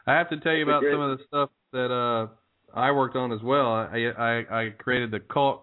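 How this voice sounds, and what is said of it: Southern American accent, slight twang. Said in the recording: “I'm hearing a Southern accent ... twang”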